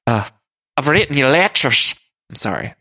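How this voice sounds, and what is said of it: Poor put-on Irish accent. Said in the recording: “My Margaret impression is terrible. ... that Irish accent”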